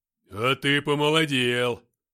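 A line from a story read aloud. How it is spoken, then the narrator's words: Deep bass voice. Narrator (Russian): пробасил Филиппыч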